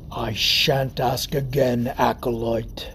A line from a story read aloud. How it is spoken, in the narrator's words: the beast snarled, impatient